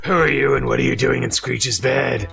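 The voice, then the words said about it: Sexy character voice. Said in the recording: “that's a very sexy voice you got there.”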